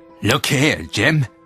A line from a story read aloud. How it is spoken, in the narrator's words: he snarled